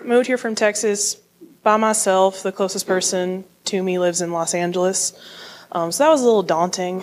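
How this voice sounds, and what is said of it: Texan accent. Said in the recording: “I moved here from Texas, if you can't tell by my accent already. I'm hearing it so loudly in the microphone.”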